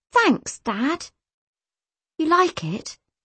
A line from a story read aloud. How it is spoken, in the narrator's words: he asked, anxiously